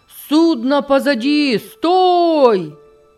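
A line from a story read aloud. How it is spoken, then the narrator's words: Shouting. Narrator (Russian): кричал он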